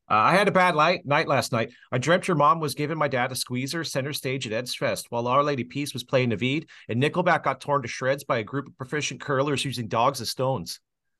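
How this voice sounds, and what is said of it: Northern Ontario / East Coast Canadian accent. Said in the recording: “I'll read it with a Northern Ontario / East Coast accent”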